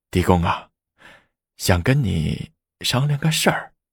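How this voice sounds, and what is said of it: Quiet, hushed voice. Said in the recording (Chinese): “小声说”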